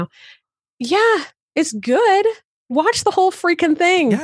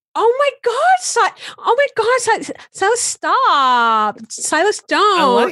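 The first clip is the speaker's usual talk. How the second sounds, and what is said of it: Alexis Rose impression from Schitt's Creek. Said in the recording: “I was just doing an Alexis impression. not a good”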